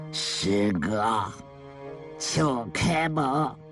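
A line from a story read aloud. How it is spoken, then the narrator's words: Low voice outside door. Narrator (Chinese): 门外的人低声地说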